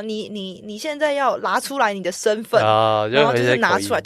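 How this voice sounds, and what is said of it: Imitated heavy accent in Mandarin. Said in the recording (Chinese): “各种的口音啊 ... 就是他们的口音，我都这样子 ... 口音很重，然后就觉得好可爱”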